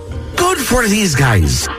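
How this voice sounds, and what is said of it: Put-on Irish accent. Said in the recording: “little Irish accent too? ... He's a leprechaun.”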